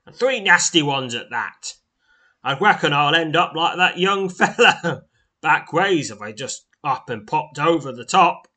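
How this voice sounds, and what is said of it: Character voice with vague accent. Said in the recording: “I think I've given him some sort of accent”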